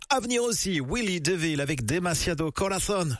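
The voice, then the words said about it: Exaggerated Spanish accent. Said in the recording (French): “Je vous le dis avec mon meilleur accent espagnol.”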